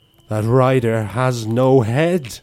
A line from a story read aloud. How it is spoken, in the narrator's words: shouted without thinking